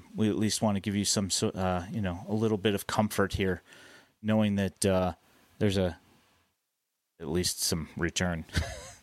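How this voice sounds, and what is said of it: Sarcastic delivery. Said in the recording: “being sarcastic”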